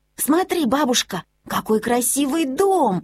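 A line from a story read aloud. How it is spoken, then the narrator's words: Exclaiming. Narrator (Russian): воскликнул Мортен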